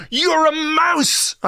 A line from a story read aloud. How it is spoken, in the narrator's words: I screamed at him